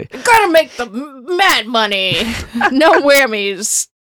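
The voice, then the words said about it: Exaggerated cartoonish Southern drawl. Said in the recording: “You sound like anyone doing an impression of Benoit Blanc... turned him into Foghorn Leghorn... I don't know what accent I was actually trying to do, and I think it was multiple mm-hmm. and none.”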